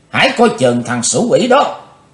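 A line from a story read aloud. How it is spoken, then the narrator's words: Shout. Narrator (Vietnamese): tiếng hét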